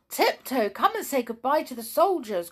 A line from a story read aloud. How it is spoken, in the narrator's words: cried Jolly